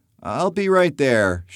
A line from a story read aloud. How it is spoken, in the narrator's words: shouts John